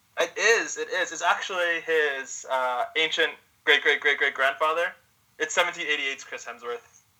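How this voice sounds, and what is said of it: Spot-on put-on Australian accent. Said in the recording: “that was a pretty spot on Australian accent.”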